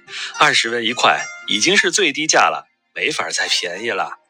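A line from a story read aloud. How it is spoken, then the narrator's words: Laughing. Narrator (Chinese): 李直笑道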